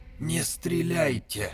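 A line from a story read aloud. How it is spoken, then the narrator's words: Quiet hoarse wheeze. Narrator (Russian): тихо просипел Вов А6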